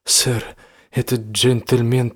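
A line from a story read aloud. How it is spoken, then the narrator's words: Young man mumbling, stammering. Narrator (Russian): промямлил юноша, заикаясь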